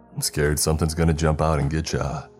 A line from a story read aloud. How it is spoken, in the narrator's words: asked in a joking tone